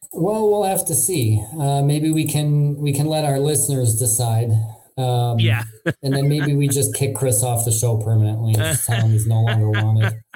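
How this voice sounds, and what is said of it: Nasal Midwestern American accent. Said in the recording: “my nasally Midwestern accent”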